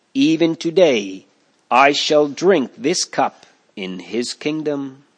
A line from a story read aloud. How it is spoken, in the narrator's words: Huss answered calmly